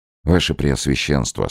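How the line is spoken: Plain. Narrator (Russian): сказал Невельской

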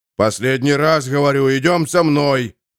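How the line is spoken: Growled. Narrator (Russian): прорычал он

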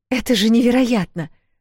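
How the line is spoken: Amazed exclamation. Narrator (Russian): воскликнула Эл

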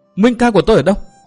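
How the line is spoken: Startled shriek. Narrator (Vietnamese): Thượng Tiểu Vân giật nảy người, rú lên

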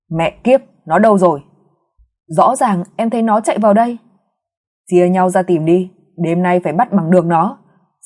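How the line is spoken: Annoyed hiss through teeth. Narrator (Vietnamese): Giọng nói bực bội rít qua kẽ răng

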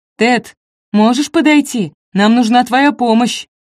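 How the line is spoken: Shouted. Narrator (Russian): Она крикнула

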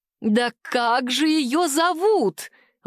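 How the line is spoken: Mother exclaiming from afar. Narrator (Russian): воскликнула ее мама с другого конца палаты

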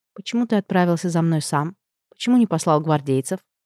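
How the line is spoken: Calm and ironic. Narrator (Russian): Обрадовалась, что голос звучит спокойно и иронично

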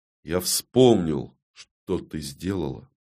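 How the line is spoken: Even voice. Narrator (Russian): ровным голосом говорю

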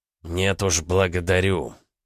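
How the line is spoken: Through gritted teeth. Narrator (Russian): процедил Захар Андреевич

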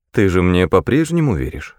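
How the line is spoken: Plain. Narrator (Russian): спросил Мендер

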